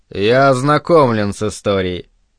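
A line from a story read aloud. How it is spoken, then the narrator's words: Cold repetition. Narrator (Russian): холодно повторил Спенглер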